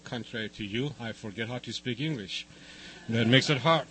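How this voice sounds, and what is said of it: Foreign accent, not Californian. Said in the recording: “you might be able to say from my accent ... this guy doesn't sound from San Diego either”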